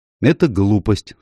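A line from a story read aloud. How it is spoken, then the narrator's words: Indifferent voice. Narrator (Russian): сказала она равнодушным голосом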